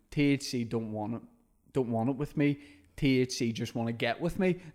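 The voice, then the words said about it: Bad put-on American accent. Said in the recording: “I'm obviously doing a bad American accent when I was doing it.”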